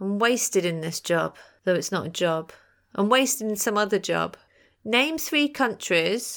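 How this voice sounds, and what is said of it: Usual voice. Nothing is said of it.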